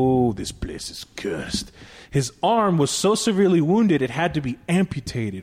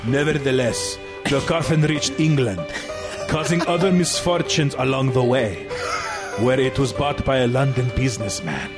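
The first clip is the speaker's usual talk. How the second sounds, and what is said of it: Put-on Egyptian accent. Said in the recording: “I have to do an Egyptian accent now.”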